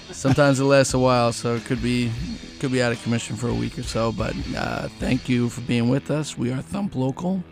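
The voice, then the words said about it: Hoarse, raspy voice. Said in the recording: “I'm losing my voice a little bit ... raspy voices. Apparently”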